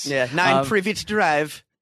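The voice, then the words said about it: Put-on British accent, unclear. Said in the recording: “Was that your British accent? ... I don't know what accent that was. ... what the narrator of the audiobook sounded like”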